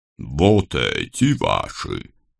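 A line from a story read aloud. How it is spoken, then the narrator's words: Booming deep bass. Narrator (Russian): неожиданно гулким басом спросил он у наставника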